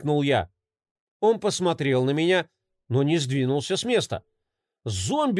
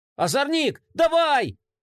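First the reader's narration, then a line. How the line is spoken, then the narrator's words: Shouting again. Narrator (Russian): закричал я снова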